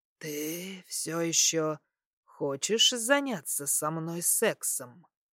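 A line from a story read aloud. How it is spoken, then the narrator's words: Hoarse question. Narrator (Russian): Хрипло спрашиваю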